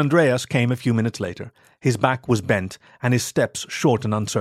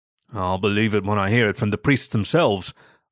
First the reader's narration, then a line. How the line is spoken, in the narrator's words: I grumbled